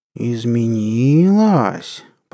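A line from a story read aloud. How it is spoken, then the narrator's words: Drawling. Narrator (Russian): протянул Григорий Натанович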